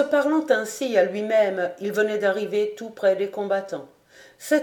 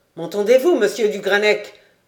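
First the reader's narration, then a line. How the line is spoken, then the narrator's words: Terrible voice. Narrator (French): ajouta-t-il d'une voix terrible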